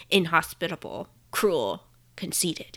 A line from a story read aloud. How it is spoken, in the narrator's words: muttering